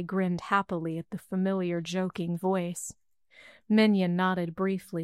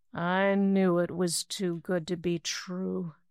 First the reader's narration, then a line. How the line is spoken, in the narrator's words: he groaned painfully